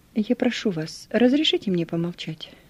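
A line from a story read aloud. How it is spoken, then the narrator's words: Calm, peaceable request. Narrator (Russian): Спокойно и миролюбиво попросил я писателя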